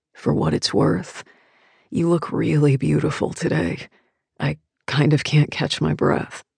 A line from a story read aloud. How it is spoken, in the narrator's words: he whispers